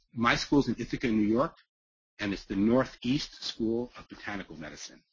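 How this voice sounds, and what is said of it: New York accent. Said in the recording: “potty mouth sarcasm with a New York accent.”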